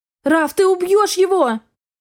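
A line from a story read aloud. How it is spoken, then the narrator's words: Sharp cry. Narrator (Russian): Вскрикнула я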